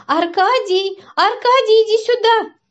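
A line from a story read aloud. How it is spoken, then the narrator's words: Female shout. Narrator (Russian): крикнула она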